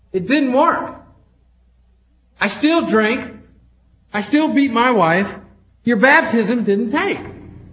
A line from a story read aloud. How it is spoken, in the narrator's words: quite indignantly said